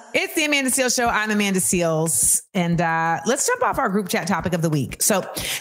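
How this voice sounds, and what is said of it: Usual voice. Nothing is said of it.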